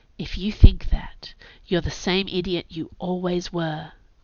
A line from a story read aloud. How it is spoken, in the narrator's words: breathed the Naga